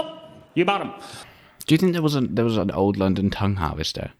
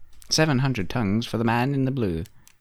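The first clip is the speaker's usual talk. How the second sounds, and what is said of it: Old-timey auctioneer voice. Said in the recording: “That's my impression of being an old-timey auction house owner.”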